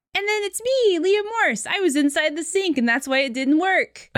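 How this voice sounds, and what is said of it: Silly put-on voice. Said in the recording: “I don't know why I did a voice. ... I did a voice for myself.”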